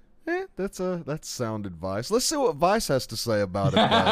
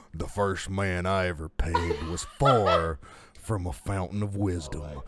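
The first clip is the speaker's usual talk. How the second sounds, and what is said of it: Put-on burly voice. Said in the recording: “I'm going to read it in a burly voice.”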